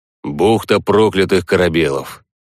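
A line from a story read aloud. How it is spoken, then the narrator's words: Plain. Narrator (Russian): сказал Головастик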